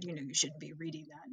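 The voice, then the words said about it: Stern fatherly voice. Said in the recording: “Did the stern dad voice.”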